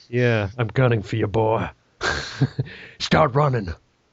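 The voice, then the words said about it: A bad put-on impression voice. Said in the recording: “that terrible impression”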